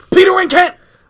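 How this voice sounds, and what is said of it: Yelling. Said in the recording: “I don't know why I'm yelling.”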